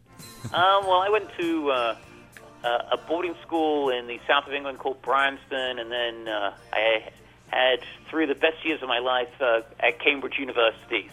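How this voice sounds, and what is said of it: English accent. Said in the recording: “British accent ... semblance of an English accent”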